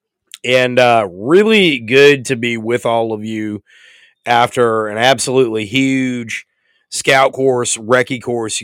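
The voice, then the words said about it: Hoarse, worn-out voice. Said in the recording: “You can probably tell by my voice ... my voice is shot”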